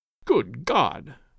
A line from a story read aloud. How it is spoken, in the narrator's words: whispered Clayton in a horrified tone